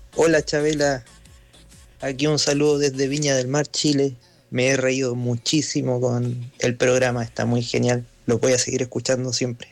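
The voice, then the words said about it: Chilean Spanish accent. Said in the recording (Spanish): “¿Quieren escuchar un acento chileno?”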